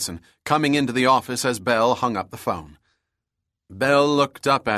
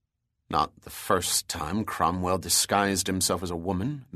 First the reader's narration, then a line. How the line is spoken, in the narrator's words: Bell murmured angrily